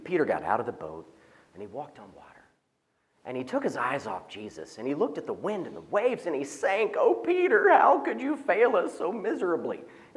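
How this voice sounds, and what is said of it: Preacher's sermon voice. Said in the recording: “I'm trying to use my preacher voice.”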